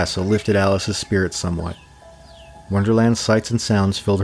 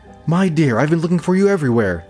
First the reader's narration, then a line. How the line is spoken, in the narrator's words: the Queen exclaimed